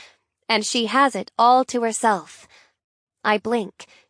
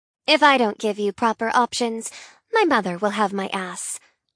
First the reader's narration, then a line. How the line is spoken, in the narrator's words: she says in a deadpan voice